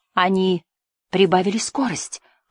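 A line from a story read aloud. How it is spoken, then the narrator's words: Whisper. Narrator (Russian): прошептал Жасмин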